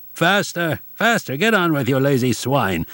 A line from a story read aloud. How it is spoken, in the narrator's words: yelled the Hungarian police